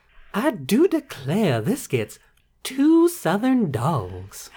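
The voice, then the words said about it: Southern belle accent. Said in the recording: “using your favorite Southern accent voice ... like a Southern Belle”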